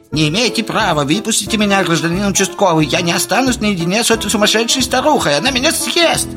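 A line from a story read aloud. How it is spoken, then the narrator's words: Shrill blunt voice. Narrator (Russian): визгливый голос прямолинейно сообщил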